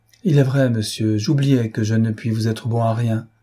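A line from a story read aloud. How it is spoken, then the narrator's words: Sighing, melancholy resignation. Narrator (French): répondit le pauvre myope avec un soupir de résignation mélancolique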